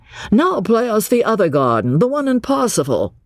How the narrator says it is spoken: Cecil, sharing the discontent, called out

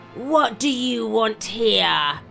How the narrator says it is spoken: he roared in a thunderous voice

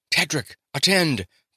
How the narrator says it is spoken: the monarch panted

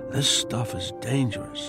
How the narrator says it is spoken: I whisper

